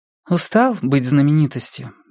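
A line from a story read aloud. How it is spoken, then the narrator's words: Gentle question. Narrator (Russian): мягко спросила Симона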